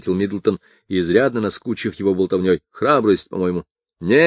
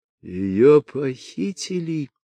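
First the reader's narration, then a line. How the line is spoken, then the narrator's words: Stunned husband moaning. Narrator (Russian): простонал пораженный муж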